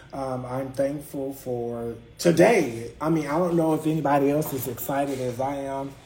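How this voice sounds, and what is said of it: Hoarse, strained voice. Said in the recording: “Kind of hoarse. I had to give the message today, so excuse my voice ... I don't have a voice today”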